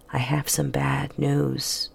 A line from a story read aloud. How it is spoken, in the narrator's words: he said gently